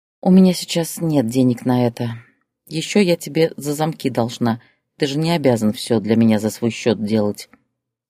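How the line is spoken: Calm reply. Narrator (Russian): спокойно ответила Зоя

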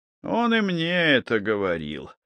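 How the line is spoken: Sighing. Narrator (Russian): вздохнул Щукин

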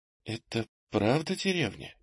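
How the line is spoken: Uncertain mutter. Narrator (Russian): неуверенно пробормотала она

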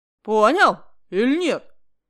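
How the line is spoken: Angry. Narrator (Russian): сердито говорил Аким Ильич

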